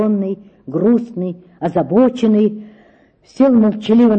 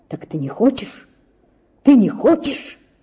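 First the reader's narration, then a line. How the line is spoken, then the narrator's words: Frenzied whisper. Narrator (Russian): шептал в каком-то исступлении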